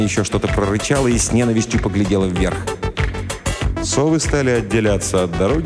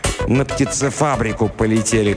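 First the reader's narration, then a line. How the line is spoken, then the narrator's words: Growled. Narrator (Russian): прорычала Лена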